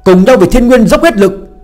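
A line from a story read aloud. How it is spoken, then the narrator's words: Loud shout. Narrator (Vietnamese): Phương Hành hét lớn một tiếng, tiếp lời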